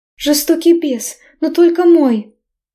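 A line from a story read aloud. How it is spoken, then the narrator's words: Deranged moaning. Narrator (Russian): Стонала, окончательно сойдя с ума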